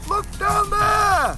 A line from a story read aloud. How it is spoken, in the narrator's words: cried Ember Bunny